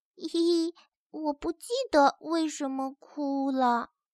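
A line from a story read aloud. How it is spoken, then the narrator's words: Baby's small chirping voice. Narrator (Chinese): 猫头鹰宝宝停止了大哭， 小声唧唧道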